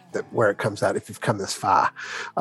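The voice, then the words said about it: Put-on Boston accent. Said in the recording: “without your Boston accent”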